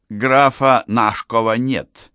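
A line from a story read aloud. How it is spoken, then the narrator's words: Displeased. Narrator (Russian): сказала она недовольным тоном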